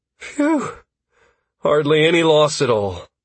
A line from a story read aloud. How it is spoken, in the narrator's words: Constantine breathed